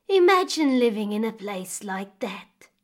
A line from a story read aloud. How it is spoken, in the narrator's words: she sighed